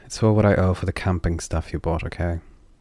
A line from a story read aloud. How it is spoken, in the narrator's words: They sighed and continued, with the anger forced out of their words